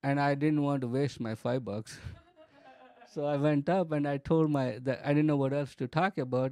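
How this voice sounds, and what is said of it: Thick foreign accent. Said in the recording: “My accent was even thicker.”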